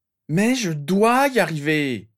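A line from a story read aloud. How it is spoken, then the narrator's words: Screaming, nerves fraying. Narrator (French): hurla Harry dont les nerfs commençaient à lâcher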